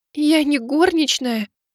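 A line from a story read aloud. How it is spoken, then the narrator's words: Tearful reply. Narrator (Russian): Сквозь слезы отозвалась Мэйли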